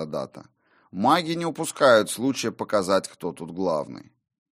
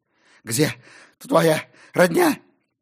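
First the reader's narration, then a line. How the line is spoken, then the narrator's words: Hoarse, breathless. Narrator (Russian): прохрипел он на бегу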